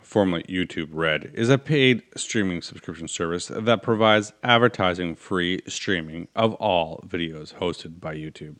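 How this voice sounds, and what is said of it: Polished radio announcer voice. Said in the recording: “I'm going to use my good radio voice”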